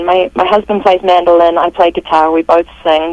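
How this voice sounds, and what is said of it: Mixed, in-between accent. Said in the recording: “my crazy halfway accent”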